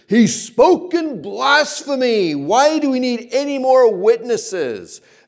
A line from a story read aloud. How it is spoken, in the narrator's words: the high priest thundered